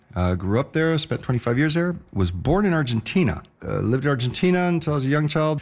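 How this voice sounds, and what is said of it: American accent. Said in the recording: “as you can hear from my accent, American.”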